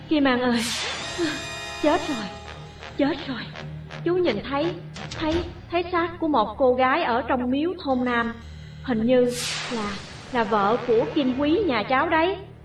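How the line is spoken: Breathless, shocked man. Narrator (Vietnamese): Chú Kim ngay người nhìn tôi, thở hổn hển nói

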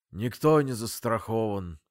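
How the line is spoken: Sad voice. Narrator (Russian): печальным голосом завершил Фитиль

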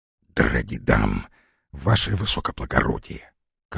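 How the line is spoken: Embarrassed soldier's whisper. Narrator (Russian): конфузливо отвечал ему шепотом ближе других стоявший к нему солдатик

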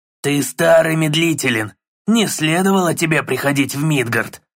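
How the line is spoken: Mocking hoarse stranger. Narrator (Russian): Насмешливо прохрипел чужак

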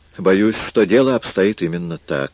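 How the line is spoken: Glum. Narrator (Russian): сказал он уныло

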